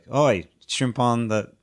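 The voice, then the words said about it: Put-on Australian accent. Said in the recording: “I want to hear your accent ... Sorry, Australia.”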